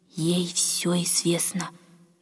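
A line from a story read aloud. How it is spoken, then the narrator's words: Meaningful whisper. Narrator (Russian): многозначительно прошептала старушка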